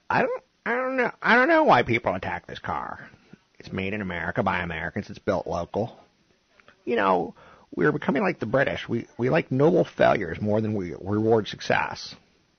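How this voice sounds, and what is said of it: Weak Jay Leno impression. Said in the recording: “I don't do a good Leno impression.”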